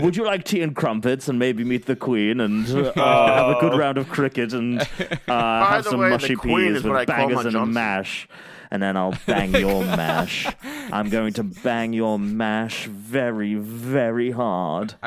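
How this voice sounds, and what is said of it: Exaggerated English accent. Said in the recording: “I tease the accent ... English accent ... British”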